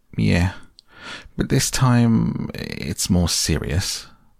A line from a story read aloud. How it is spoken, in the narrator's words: said the rat gravely